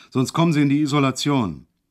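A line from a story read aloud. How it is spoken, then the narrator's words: Sudden roar. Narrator (German): brüllte er auf einmal los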